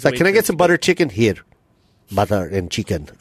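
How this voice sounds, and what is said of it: Put-on foreign accent. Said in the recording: “It's kind of like a Chinese. ... I don't even know what accent that is.”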